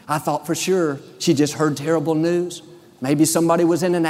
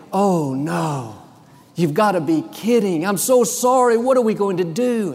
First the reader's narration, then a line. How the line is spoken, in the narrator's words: She said so dramatically